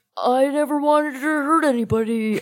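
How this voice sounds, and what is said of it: Impression of another person's voice. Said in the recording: “my impression of him”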